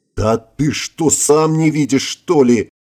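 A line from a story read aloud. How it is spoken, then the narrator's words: Indignant howl. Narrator (Russian): возмущенно взвыл командир откровения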